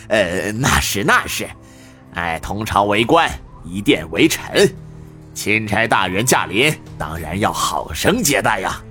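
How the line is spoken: Forced awkward laugh. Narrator (Chinese): 宋城干笑道

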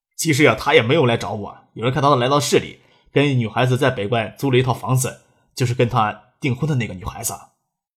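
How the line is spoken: Serious explanation. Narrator (Chinese): 张志飞笑着说话，过了一会儿才正经解释发生什么事情，又说道

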